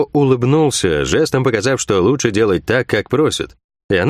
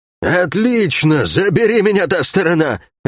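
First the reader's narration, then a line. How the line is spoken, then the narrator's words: Drunkard exclaiming. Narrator (Russian): воскликнула Лагорец с пропитым лицом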